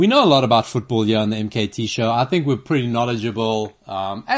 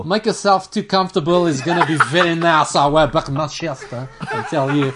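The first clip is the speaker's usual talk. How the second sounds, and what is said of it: Imitates another person's voice. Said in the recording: “accent ... if I had to close my eyes, I'd think that was Ronaldo”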